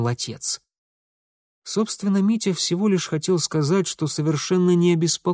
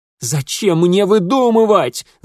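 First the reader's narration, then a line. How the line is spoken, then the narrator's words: Shouted. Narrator (Russian): закричал он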